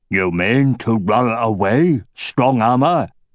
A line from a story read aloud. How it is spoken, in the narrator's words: rumbled Nargajvag